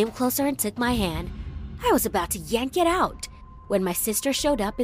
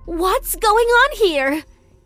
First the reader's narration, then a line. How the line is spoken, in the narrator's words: she screamed angrily